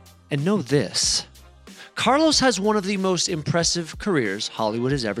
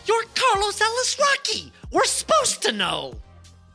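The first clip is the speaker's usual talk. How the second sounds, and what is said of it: Imitates another person's voice. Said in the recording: “my best metaphorical Nardwar impression, or, as it would sound literally”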